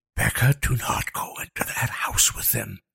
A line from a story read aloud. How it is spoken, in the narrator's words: Liam hissed